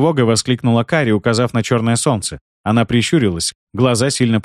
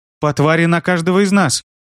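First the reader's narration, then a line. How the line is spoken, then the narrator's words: Exclaiming. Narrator (Russian): воскликнула Кари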